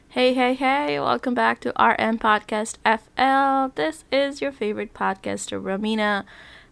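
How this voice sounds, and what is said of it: Voice a little off, sick. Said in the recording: “my voice is a little off because I am sick”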